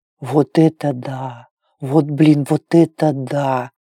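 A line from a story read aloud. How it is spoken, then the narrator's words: Whispered, monkey. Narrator (Russian): прошептала обезьяна, и Клэр узнала голос Косты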